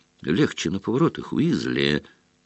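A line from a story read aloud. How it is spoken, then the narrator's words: Mocking warning. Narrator (Russian): предупредил насмешливо Малфой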